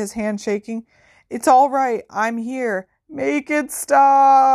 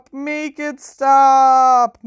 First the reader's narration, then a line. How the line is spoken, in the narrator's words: moaned Dumbledore